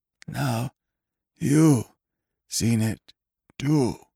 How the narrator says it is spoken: wheezed

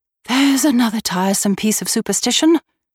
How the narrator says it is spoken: exclaimed

